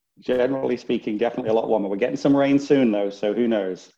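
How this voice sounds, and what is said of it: Northern English accent. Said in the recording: “accent ... Can you tell with that accent? ... Originally, Northern England ... Not so much of a Texas accent”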